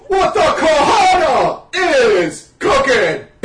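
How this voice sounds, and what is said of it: Impression of The Rock. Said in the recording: “my rock impersonation”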